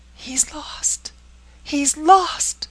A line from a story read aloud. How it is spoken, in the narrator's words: cried Frances